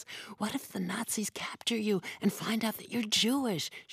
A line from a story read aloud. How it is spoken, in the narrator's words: she had whispered